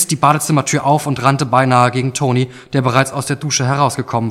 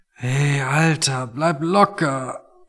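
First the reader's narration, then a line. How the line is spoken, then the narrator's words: Quiet weary. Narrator (German): meinte Tony und sprach leise, weil jedes Geräusch einfach noch zu viel für ihn war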